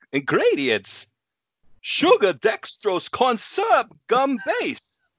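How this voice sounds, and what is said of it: Imitates another person's voice. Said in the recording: “Let's all do our Christopher Walken impression ... read it in his”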